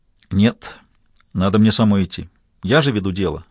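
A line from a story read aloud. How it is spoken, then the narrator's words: Plain. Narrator (Russian): ответила Кэрол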